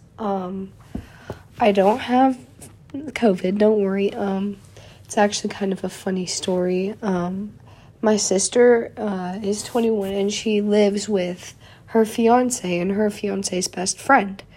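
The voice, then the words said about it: Raw, slightly hoarse voice. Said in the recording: “my voice sounds a little raw or if I cough at all during this ... this cold”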